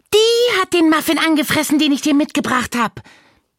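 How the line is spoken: Called out. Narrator (German): rief Marie

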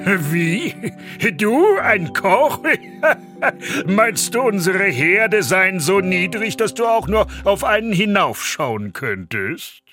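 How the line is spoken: Loud laughing shout. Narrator (German): Der Oberküchenmeister brach in lautes Lachen aus und rief

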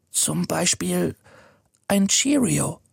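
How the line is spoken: Whisper. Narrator (German): flüstert

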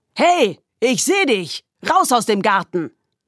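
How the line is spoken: Shouted. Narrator (German): der Brockner durch die Dunkelheit brüllte

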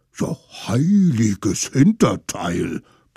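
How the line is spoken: Blustering mammoth. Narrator (German): polterte das Mammut

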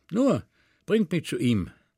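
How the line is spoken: Young man calling. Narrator (German): rief der junge Mann

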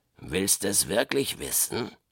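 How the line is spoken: Growling. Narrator (German): knurrte der Knurrhahn

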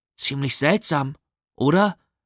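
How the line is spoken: Plain question. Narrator (German): fragte Henry

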